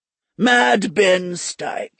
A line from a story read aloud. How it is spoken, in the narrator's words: he muttered